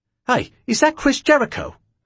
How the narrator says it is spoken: a fan said excitedly

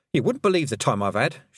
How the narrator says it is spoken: she said

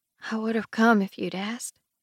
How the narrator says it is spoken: Sarah says gently

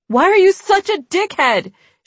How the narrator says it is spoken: she yelled

